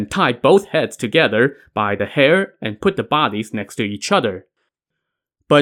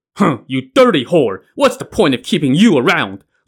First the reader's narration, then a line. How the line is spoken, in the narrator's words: Li Kuei barked